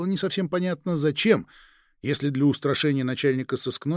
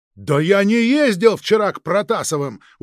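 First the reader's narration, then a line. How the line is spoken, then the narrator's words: Angry shout. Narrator (Russian): уже со злостью в голосе выкрикнул следователь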